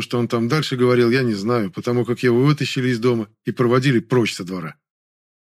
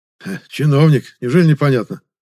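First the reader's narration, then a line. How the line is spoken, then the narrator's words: Snorting reply. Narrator (Russian): ответил он, хмыкнув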